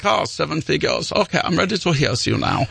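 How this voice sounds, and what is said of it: Put-on dopey German accent. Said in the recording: “I gave Lars a German accent ... Whatever accent makes him sound dopey”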